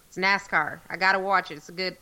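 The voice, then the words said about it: Imitated Southern US accent. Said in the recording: “just like that, with that southern accent and everything”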